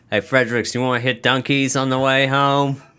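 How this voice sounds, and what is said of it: Poor put-on Boston accent. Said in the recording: “The Tempe police sound like Boston cops. ... That was a terrible accent. I don't know what the fuck that was.”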